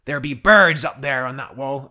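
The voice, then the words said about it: Bad pirate-like Scottish accent. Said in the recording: “I'm doing a terrible accent. ... That's like a pirate. ... Jack Sparrow ... a really strong Gaelic Scottish accent”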